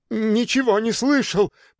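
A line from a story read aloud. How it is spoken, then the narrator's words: Timid babble. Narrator (Russian): пролепетал я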